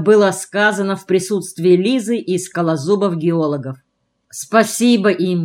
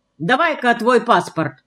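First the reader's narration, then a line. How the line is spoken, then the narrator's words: Sharp, demanding. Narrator (Russian): потребовала девица резким голосом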